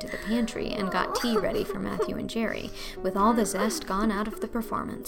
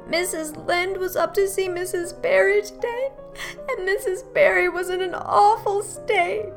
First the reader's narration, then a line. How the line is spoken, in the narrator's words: she wailed